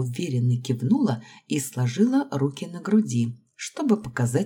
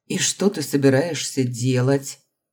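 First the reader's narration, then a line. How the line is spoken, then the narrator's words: Man's skeptical snort. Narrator (Russian): скептически хмыкнул мужчина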